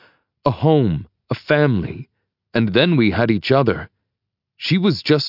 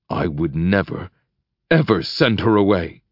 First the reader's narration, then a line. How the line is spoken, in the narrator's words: he growls